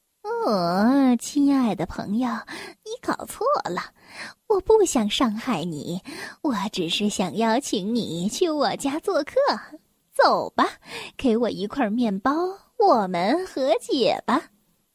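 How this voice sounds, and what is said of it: Sweet, angelic, soft-spoken voice. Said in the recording (Chinese): “他用天使一样的声音小声的说道”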